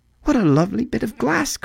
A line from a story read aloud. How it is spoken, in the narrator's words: cried the girl